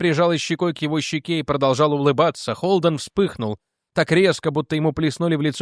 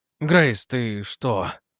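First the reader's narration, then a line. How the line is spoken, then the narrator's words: Strained, forced out. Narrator (Russian): Выдавил он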